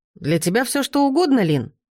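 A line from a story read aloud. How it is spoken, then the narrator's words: Exclaiming. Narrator (Russian): воскликнул он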